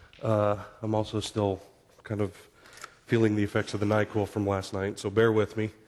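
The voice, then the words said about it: Voice affected by illness. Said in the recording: “I fell ill this weekend. My voice is not quite where I would like it to be.”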